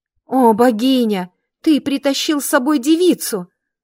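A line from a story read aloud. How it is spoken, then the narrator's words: Exclaiming woman. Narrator (Russian): воскликнула блондинка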